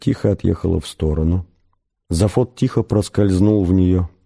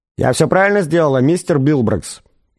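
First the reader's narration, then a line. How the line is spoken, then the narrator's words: Loud question from door. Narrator (Russian): громко поинтересовалась дверь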